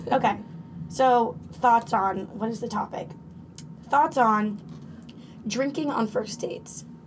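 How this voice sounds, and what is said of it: Cracky, rough voice. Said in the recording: “I'm a little hungover, so my voice is kind of cracky.”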